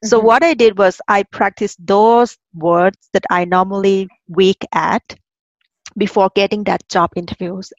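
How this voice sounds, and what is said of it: Thai accent in English. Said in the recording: “my accent ... I'm originally from Thailand. We call ourselves monotone people. We have just one tone.”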